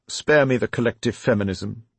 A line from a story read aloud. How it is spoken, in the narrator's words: Urquhart snapped in exasperation